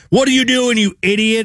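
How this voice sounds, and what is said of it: Yelling angrily. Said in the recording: “you're yelling”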